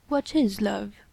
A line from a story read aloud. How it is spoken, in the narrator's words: he asked calmly